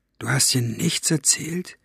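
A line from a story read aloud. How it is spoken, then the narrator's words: Lowered voice question. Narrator (German): mit gesenkter Stimme fragen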